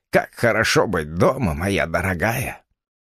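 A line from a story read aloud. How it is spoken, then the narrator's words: Half-voiced. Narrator (Russian): говоря вполголоса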